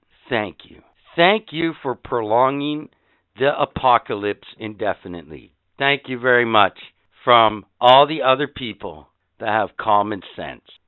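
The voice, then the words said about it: Sarcastic delivery. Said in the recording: “Did you just hear the sarcasm in my fucking voice?”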